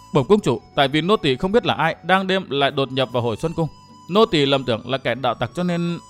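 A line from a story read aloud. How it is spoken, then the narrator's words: Frightened young woman. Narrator (Vietnamese): thiếu nữ áo xanh sợ hãi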